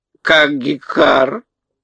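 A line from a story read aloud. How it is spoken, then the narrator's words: Hoarse, calmer bird croak. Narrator (Russian): хрипло каркнул птица, но крик ее был уже спокойнее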